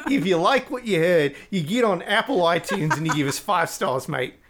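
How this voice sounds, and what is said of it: Put-on Australian accent, unconvincing. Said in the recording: “if you like ... accent. ... Oh my gosh, we lost all of Australia.”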